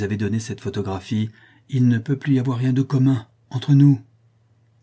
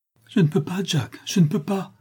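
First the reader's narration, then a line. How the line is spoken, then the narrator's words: Exclaimed. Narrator (French): s'écria-t-elle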